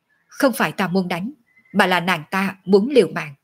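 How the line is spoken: Cold voice. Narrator (Vietnamese): Diệu Yên lạnh lùng nói

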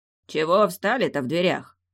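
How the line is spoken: Deep booming voice. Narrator (Russian): прогудел он

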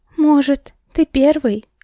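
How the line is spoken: Trembling voice. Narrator (Russian): дрожащим голосом сказала

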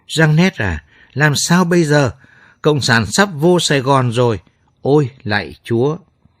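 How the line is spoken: Panicked woman sobbing. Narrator (Vietnamese): Bà đầm Emma hớt hải cuống cuồng, mếu máo khóc

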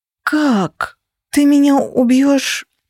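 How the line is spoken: Whimpered, knees buckling. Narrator (Russian): Прохныкала я, вставая и чувствуя, как мои колени прогибаются

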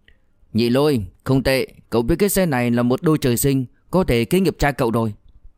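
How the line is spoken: Loud calling. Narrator (Vietnamese): Diệp Dũng lớn tiếng gọi

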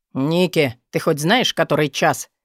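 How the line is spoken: Grumpy grumble. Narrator (Russian): сварливо проворчал друг

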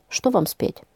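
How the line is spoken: Quiet question. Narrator (Russian): тихо спросил

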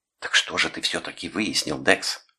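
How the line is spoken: Whispered. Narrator (Russian): прошептала Деб

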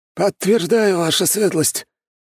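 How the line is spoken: Hoarse. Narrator (Russian): хрипло произнес князь Абаров

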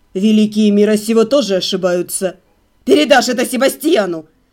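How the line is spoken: Spat angrily. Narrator (Russian): Зло выплюнул Даниэль

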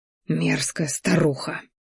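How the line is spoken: Silent inner hiss. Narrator (Russian): шипел мысленно

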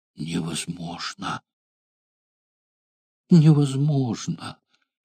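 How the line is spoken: Near-silent whisper. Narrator (Russian): Изредка он шептал почти беззвучно

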